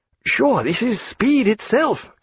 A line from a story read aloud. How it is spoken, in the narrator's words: cried Stephen